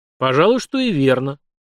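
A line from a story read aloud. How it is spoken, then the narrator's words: Thoughtful agreement. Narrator (Russian): задумчиво согласился царь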